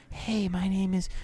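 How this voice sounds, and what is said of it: Airy-sounding character voice. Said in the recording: “I hate like the airy sounding characters.”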